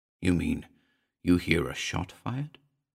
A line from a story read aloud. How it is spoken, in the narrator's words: he asked, scarcely above a whisper